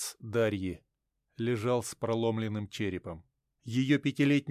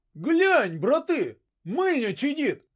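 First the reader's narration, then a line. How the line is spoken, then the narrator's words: Distant shout. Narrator (Russian): выкрикнул кто-то в метрах 20 от Третьяка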